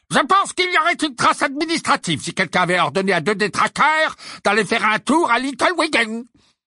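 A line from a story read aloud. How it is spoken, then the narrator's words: Harsh barking. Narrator (French): aboya Fudge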